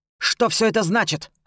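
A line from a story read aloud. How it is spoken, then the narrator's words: Barking angrily. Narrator (Russian): рявкнул он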